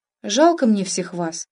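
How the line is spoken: Thoughtful. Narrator (Russian): задумчиво произнесла она

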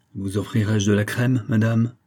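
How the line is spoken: Piqued, offended tone. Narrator (French): fit-il d'un ton piqué

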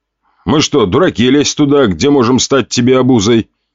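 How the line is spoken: Scoffing snort. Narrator (Russian): хмыкнул Костя

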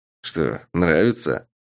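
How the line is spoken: Smirking snort. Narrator (Russian): хмыкнул Сав

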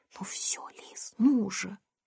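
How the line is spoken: Whispering. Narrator (Russian): Лорен не зашептала

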